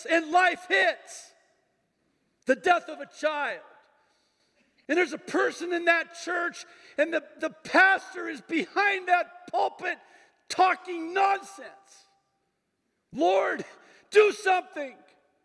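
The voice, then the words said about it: Raised, yelling voice. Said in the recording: “I'm sorry if I'm raising my voice. ... I love it when you yell.”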